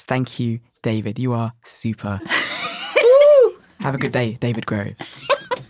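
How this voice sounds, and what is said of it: Exaggerated radio presenter voice. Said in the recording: “my best radio voice”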